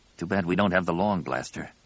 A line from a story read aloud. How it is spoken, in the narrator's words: Ganner said softly